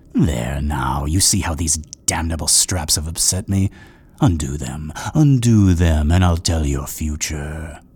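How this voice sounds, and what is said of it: Sinister, cajoling voice. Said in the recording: “cajoling in that sinister voice”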